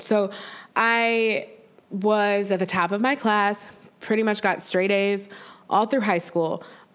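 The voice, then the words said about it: Congested, stuffy-sounding voice. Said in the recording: “I'm sorry, I have a cold.”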